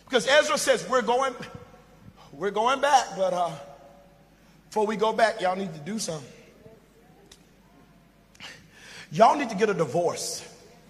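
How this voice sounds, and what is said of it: American Southern dialect. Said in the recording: “I'm talking in this American Southern dialect”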